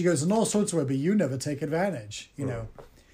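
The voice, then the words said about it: Put-on British accent. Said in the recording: “giving her a British accent”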